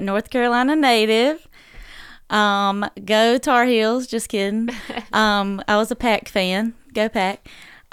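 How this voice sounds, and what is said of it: Sweet Southern drawl. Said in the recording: “southern twang... southern drawl to her voice, and it makes it so sweet”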